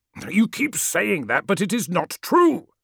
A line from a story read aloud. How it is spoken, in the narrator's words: snapped Magnus